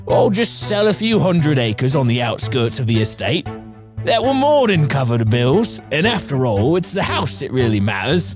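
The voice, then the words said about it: Put-on Cockney accent. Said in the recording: “I don't know why he was Cockney. He'd probably have a better accent than that.”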